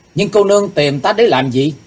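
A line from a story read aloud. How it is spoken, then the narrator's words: Loud. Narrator (Vietnamese): lớn tiếng nói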